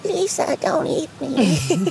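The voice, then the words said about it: Imitates a cartoon sheep's voice. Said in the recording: “that was a good impression”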